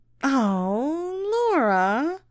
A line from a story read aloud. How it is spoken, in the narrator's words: Stacy moaned, frustrated like a little child